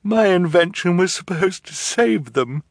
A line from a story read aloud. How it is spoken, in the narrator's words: she said mournfully